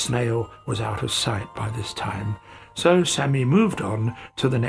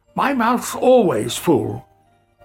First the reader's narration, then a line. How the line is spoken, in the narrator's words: Sammy shouted after him